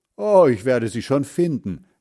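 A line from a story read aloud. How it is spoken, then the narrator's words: Calling out. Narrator (German): rief Heinz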